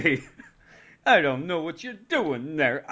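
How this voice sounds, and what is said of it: New York cab driver voice. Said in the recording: “talk like a New York cab driver ... I'm doing a lot of voices today”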